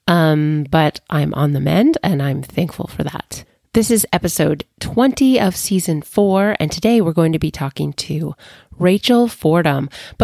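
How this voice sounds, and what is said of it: Voice sounds slightly sick. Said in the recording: “my voice sounds a little different today, it's because I'm getting over being sick”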